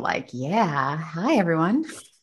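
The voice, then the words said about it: Sultry, seductive voice. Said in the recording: “put on my sexy voice”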